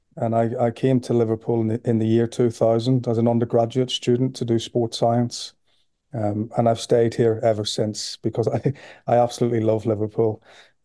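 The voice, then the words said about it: Northern Irish Belfast accent. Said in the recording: “as you can hear from my accent, I'm from Belfast originally”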